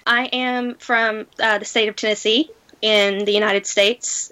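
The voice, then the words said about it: Southern American accent. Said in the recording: “you do sound from across the Atlantic ... my southern accent”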